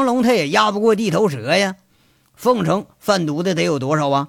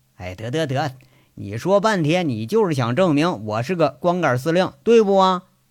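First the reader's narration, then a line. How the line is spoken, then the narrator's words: Lowered voice. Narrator (Chinese): 那个光头骡子下意识的压低着声音说着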